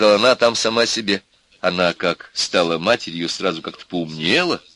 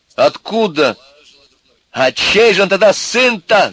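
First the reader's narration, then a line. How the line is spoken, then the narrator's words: Yelling. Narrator (Russian): заорал Костя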